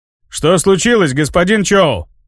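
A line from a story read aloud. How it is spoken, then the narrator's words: Shouting. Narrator (Russian): крикнул Магвай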